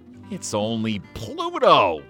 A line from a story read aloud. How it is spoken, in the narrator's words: Mickey said happily